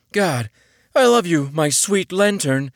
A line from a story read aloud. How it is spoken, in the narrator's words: the blue man sighed